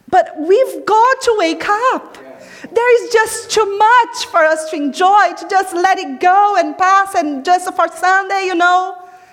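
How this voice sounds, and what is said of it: Italian accent. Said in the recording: “I have this Italian movement here and my tone of voice.”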